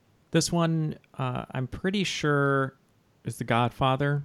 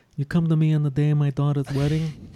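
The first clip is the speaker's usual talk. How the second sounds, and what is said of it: Godfather movie character impression. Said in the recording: “any excuse to do a Godfather impression. ... That's such an easy impression, too.”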